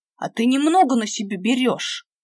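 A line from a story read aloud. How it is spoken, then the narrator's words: Growl. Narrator (Russian): прорычал Димка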